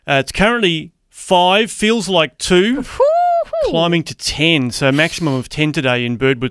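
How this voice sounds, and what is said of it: Australian accent. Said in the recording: “that's my accent. Accent is Aussie.”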